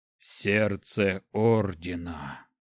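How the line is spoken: Breathed out. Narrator (Russian): выдохнул Снег

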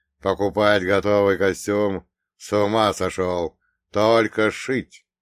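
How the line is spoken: Firm, unshakable declaration. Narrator (Russian): совершенно непоколебимым тоном заявил

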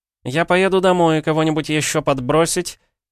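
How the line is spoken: Loud question. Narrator (Russian): громко спросил Лео

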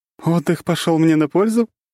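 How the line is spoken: Cheerful laughter. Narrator (Russian): весело рассмеялась Лиза

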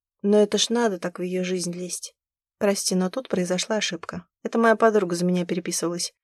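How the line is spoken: Calm reply. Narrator (Russian): спокойно ответила Зима

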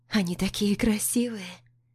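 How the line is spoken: Soft whisper. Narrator (Russian): Говорю шепотом, чтобы не разбудить

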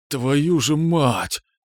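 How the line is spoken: Hoarse forced outburst. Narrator (Russian): хрипло вытолкнул я

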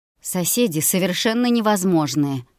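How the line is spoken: Snorting grunt. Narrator (Russian): хмыкнул он

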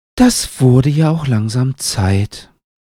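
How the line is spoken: Sighing. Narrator (German): seufzt Hut

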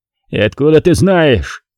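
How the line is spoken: Growled. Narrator (Russian): прорычал босс

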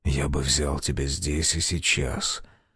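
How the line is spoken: Rough voice. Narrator (Russian): сказал грубоватым голосом

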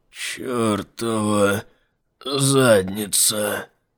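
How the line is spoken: Groan. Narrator (Russian): простонал он

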